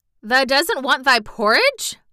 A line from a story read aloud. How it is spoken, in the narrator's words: Martha exclaimed incredulously